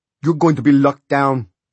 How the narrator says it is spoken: Carlos roared at the remaining boys

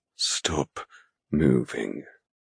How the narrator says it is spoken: he rasps

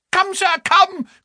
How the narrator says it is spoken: cried Frankland

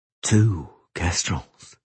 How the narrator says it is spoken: Geralt said softly

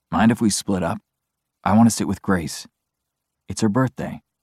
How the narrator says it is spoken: I lean closer to Dean and murmur

